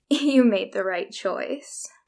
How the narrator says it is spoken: I heard her laugh and say

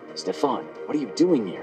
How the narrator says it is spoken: He whispers

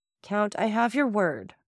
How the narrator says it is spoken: said Morel coldly

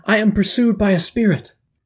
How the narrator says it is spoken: cried the woman

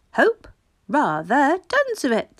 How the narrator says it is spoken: said father cheerfully

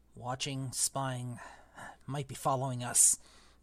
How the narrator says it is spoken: muttered Uncle Vernon wildly

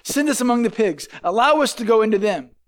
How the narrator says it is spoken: the demon begged Jesus

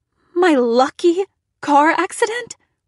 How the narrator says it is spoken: I shrieked

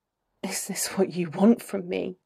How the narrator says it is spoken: It's only a murmur, but his tone is as deadly as his grip

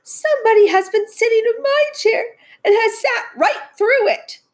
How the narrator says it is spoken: cried the little wee bear in his little wee voice

